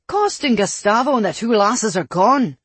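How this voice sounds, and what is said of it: Thick Irish accent. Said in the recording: “Kale's Irish accent had grown thick with his irritation.”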